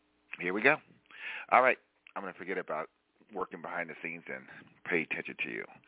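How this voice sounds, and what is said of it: Usual voice. Nothing is said of it.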